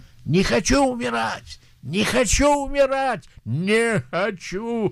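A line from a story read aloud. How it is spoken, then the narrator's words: Screaming. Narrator (Russian): когда он умирал, он кричал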